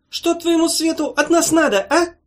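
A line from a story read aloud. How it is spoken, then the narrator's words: Shrill question. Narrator (Russian): визгливо спросил озеленитель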